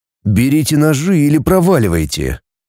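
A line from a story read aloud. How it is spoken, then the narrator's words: Cold reply. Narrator (Russian): холодно ответил я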